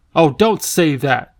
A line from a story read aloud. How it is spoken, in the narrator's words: Ben cried desperately